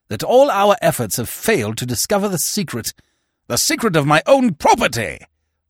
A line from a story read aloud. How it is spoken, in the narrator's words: roared Barton